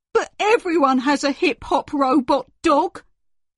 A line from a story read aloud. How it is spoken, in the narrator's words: whined Henry